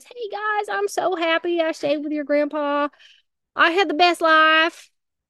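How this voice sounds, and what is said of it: Put-on southern accent. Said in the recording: “talking in a southern accent”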